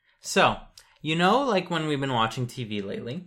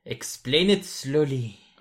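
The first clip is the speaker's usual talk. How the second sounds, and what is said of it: Put-on, inauthentic British accent. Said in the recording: “what's with the accent? ... speaking in a British accent ... it's not even authentic ... It's not authentic at all”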